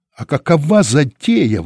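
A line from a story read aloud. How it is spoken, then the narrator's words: Exclaiming. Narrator (Russian): воскликнул он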